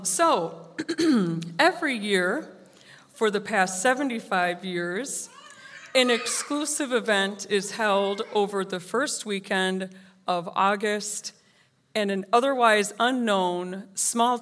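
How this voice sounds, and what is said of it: Hoarse voice. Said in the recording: “Excuse my hoarseness. ... I'm hoarse for like 3 months”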